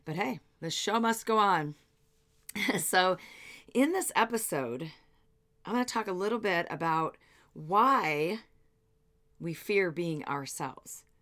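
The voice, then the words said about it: Voice affected by a cold. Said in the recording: “I'm just getting over a cold, so you'll have to excuse my voice.”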